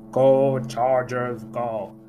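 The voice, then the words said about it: Imitates another person's voice. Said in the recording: “my Arnold impersonation.”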